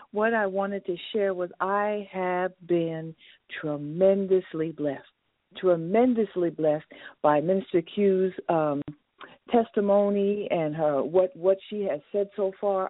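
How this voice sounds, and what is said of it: New Jersey accent. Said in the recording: “I hear that accent ... I am also from New Jersey.”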